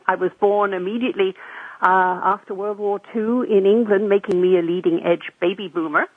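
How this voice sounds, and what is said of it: Non-North American, English-born accent. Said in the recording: “I guess from my accent, you can tell that originally I don't come from North America.”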